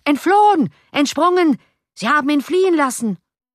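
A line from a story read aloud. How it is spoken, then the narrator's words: Angry screaming crowd. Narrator (German): Andere vor Zorn glühende Gesichter zeigten sich an den Fenstern und schrien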